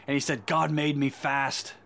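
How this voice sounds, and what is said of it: Put-on British accent. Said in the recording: “My wife will give me a hard time with my British accent.”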